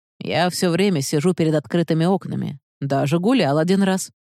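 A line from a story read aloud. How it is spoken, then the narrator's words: Plain. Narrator (Russian): сказал Иван Павлович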